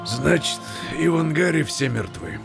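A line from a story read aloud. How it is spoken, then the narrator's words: Grim question. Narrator (Russian): мрачно переспросил Фадеев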